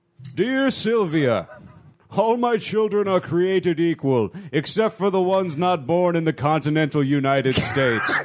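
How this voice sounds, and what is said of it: Mock voice of God. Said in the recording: “I'm going to read this in my God voice.”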